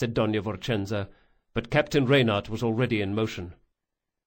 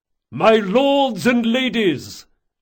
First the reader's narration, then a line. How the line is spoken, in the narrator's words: Reynard bellowed at the top of his voice